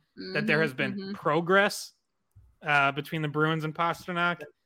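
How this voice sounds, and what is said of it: Attempted Canadian accent. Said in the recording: “this isn't me slipping into a Canadian accent, this is me trying to do one”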